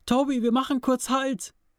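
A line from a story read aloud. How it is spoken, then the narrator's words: Shouting after someone. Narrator (German): schrie hinterher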